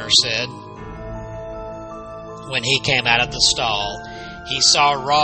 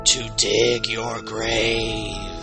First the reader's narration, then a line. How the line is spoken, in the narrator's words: Rawhead intoned softly, his voice a deep rumble that raised the hairs on the back of the hunter's neck